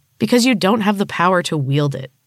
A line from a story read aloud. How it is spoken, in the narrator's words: Francie scoffed